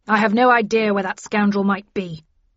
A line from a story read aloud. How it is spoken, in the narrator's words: declaimed Linton angrily